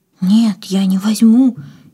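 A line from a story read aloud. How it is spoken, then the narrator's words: Frightened. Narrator (Russian): испуганно отстранилась Катя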